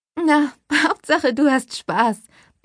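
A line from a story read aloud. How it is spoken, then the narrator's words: Laughing. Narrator (German): lachte Leo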